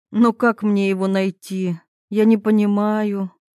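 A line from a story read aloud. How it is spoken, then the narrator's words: Sighing. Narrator (Russian): вздохнула Ирина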